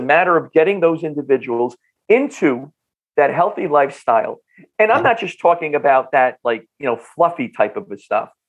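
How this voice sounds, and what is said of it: North Jersey accent. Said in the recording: “my North Jersey accent”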